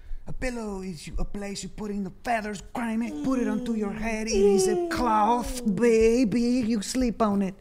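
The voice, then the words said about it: Seder character accent, hard to understand. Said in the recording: “It's insane how good you are at doing the Seder accent. ... I can't understand a single word.”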